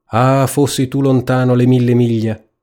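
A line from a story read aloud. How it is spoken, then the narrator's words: Mother sighing. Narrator (Italian): la madre sospirava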